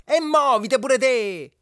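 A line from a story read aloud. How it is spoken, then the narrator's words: Wife shouting. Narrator (Italian): gridò la moglie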